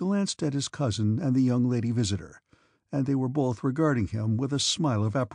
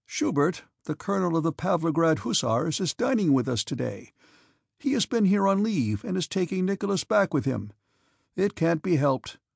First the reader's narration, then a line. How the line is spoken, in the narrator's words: said the Count, speaking playfully of a matter that evidently distressed him